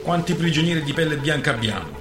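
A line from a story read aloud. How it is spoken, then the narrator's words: Plain. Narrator (Italian): chiese De Grammont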